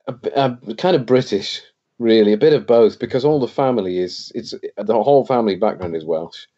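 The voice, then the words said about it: English accent, not strongly Welsh. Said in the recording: “this accent I've got is a very English accent ... it's not a very Welsh accent”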